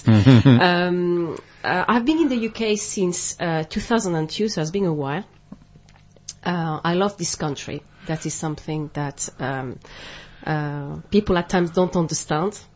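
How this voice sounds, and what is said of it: French accent in English. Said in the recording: “I am French, but my parents are Spanish ... people try to find out where I'm from with my accent”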